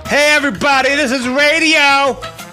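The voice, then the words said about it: Shouted radio announcer voice. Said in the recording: “radio voice? ... Yeah, I have to shout it past the microphone”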